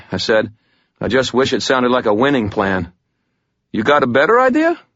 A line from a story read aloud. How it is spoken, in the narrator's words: Ramirez asked me cheerfully